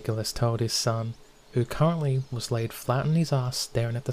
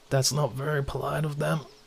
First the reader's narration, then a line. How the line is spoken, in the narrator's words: Jean groaned